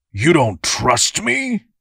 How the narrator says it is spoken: Darl said, sneering down at his brother

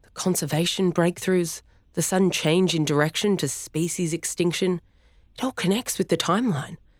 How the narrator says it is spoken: he said breathlessly

